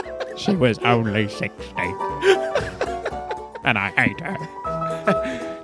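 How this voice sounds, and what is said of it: Michael Caine impression. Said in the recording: “Michael Caine ... impersonations”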